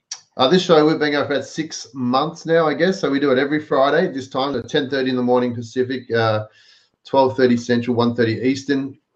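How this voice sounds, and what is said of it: Australian accent. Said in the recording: “you have an Aussie accent... I do have an Aussie accent.”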